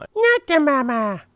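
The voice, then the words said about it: Imitates a puppet baby character voice. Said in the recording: “my impersonation of Baby Sinclair from the ABC TV show Dinosaurs”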